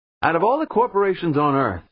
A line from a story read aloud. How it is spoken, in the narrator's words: someone called out